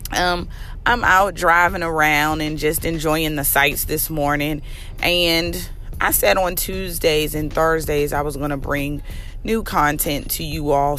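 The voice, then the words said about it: Worn, affected voice. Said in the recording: “Please excuse my voice. I am still recovering”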